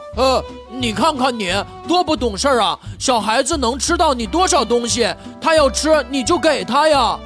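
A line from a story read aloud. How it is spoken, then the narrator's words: Calm question. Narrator (Chinese): 我平静地问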